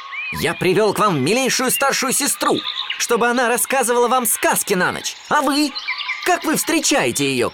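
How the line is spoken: Shouting. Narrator (Russian): кричал он

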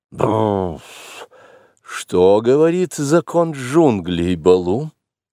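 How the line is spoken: Reluctant bear grumble. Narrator (Russian): Балу вовсе не желал новой беды для Маугли, но с законом не шутит, и потому он проворчал

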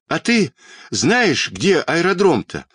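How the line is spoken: Shouted while running. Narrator (Russian): на бегу крикнул Петька

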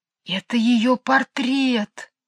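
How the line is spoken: Whisper. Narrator (Russian): сказала она шепотом

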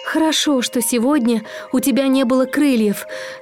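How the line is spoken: Trembling voice. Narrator (Russian): наконец сказал он дрожащим голосом

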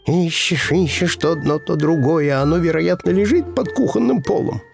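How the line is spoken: Grumbled. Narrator (Russian): проворчал

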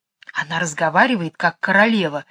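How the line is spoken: Whispered. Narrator (Russian): шепнула Джейн

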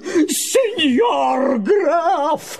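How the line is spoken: Wild, unrecognisable yell. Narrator (Russian): завопил Помидор не своим голосом

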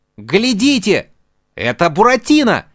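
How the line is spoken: Shouting. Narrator (Russian): закричал Арлекин

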